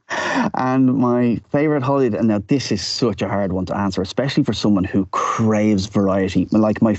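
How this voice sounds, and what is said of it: Irish accent. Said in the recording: “you don't have a Dutch accent... where's your accent from?... born and bred in Dublin... I sound like I just stepped off the boat”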